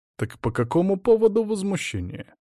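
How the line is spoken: Amused snort. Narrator (Russian): Кьяра первая весело фыркнула

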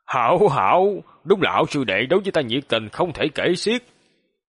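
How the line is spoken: Cold laugh, mocking. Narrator (Vietnamese): Hoàng Long hắc hắc cười lạnh vài tiếng, giễu cợt nói

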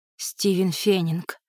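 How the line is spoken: Breathed out. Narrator (Russian): выдохнула она

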